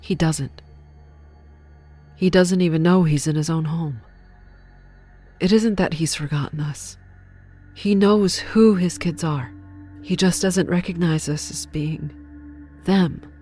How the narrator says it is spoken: Sherry clarified sadly

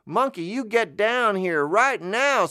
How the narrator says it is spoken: screamed the nice lady

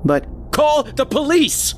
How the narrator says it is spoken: yelled

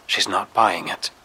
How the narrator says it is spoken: Renee murmurs through the earpiece

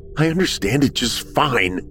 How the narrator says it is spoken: Braden snapped

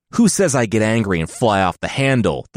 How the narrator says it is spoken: The Sultan growled

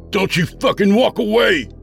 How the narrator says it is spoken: I screamed louder

